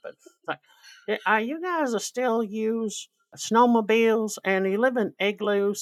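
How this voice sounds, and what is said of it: Put-on Montana American accent. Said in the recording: “this is my greatest Montana accent, by the way, whether it's accurate or not, I don't know. I kind of use that for a lot of American states that really don't have an accent.”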